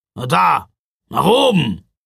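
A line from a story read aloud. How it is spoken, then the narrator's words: Growl. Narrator (German): knurrte Ruprecht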